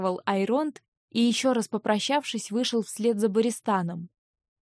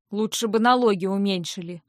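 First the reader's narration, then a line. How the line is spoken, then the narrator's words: Grumbling. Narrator (Russian): проворчал Винс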